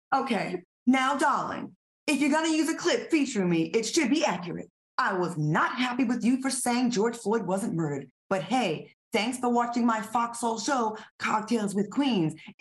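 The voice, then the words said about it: Mock journalistic news-reader voice. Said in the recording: “in your journalistic voice”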